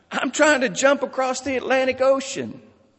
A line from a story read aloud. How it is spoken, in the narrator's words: The man in the water yells back